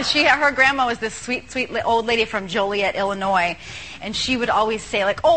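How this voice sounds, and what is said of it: Usual voice. Nothing is said of it.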